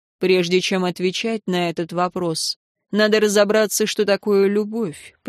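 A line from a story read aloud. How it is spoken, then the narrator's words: Forced calm, suppressed rage. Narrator (Russian): произнес он так спокойно, как мог, хотя внутри все полыхало от ярости и раздражения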